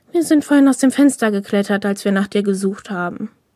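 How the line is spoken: Explaining with a sigh. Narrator (German): erklärte dieser und seufzte

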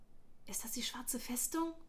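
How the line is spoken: Whisper. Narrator (German): flüsterte Darren

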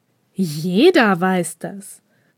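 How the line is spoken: Mock indignant, then laughing. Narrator (German): gab Mizuki ein wenig übertrieben echauffiert zurück und lachte dann

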